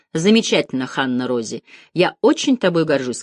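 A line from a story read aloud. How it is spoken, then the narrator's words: Plain. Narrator (Russian): сказал Деккер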